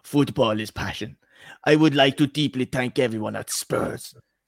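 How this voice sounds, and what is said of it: Impression of Antonio Conte's accent. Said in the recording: “can you just do the accent? ... Antonio Conte”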